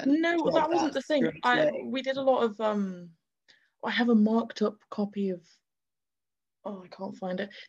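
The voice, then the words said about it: Posh English accent. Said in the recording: “has this posh accent”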